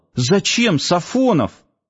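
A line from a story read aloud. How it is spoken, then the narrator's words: Sudden exclamation. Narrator (Russian): спохватившись, воскликнул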